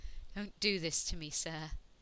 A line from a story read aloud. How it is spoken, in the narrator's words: Ianto said out loud, hating how his voice shook